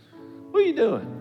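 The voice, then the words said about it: Imitates a high-pitched voice. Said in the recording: “Billy's got this high voice.”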